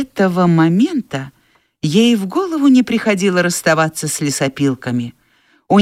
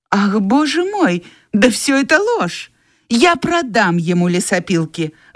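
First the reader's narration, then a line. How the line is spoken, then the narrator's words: Indignant exclamation. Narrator (Russian): возмущенно воскликнула Скарлетт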